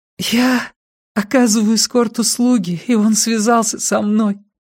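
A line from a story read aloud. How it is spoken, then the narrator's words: Thin voice. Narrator (Russian): тонким голосом произнесла она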